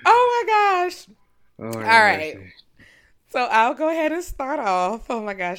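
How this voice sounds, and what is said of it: Yelling loudly into the microphone. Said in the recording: “I can see I'm yelling in the microphone”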